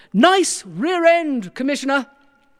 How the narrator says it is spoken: someone shouted out

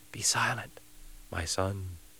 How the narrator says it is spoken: whispered

